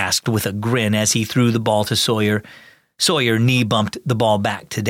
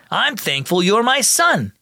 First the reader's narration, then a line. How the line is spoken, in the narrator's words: shouted